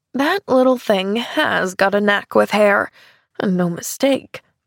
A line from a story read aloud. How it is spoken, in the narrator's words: she muttered under her breath